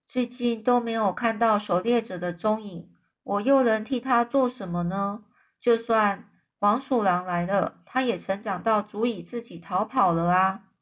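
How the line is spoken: Sighing. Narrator (Chinese): 叶芽呢叹口气就说

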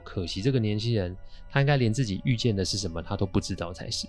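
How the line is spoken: Flat, indifferent. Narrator (Chinese): 大哥淡淡的说

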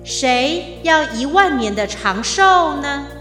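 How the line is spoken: Clear divine voice from heaven. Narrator (Chinese): 天神清澈的声音穿过云霄，直透入地

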